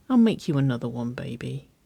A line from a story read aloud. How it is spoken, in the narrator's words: Waverley murmured